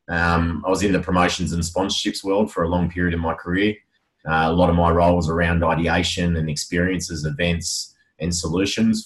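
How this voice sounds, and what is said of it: Smooth broadcaster-style radio voice. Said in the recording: “People say I've got a radio voice.”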